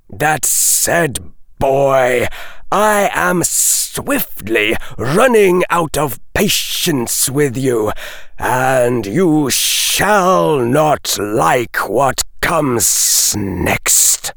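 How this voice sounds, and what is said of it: Hissed, menacing snake-like voice. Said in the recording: “This last line was hissed out in a voice that conveyed the impression of a snake rearing its head to strike.”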